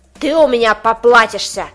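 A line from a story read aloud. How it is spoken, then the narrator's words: Vicious, menacing threat. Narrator (Russian): Угрожает дядя Рэй так злобно, что даже мне становится страшно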